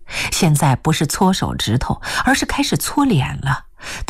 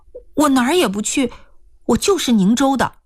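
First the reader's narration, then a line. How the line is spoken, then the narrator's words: Hurried. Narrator (Chinese): 易青娥急忙说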